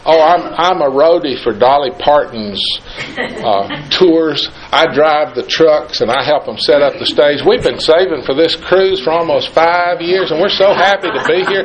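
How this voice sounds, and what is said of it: Down-home accent. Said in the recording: “put on his best down-home accent”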